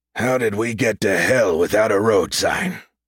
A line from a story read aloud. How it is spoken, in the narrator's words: Rollins said, his voice deep and scratchy